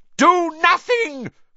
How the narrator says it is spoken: Voldemort shrieked to the Death Eaters

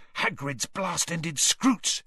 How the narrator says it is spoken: he hissed

